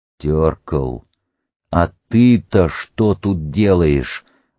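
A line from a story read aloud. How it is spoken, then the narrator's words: Stern, suppressing laughter. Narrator (Russian): МакМёрфи старался говорить строго, а сам с трудом сдерживал смех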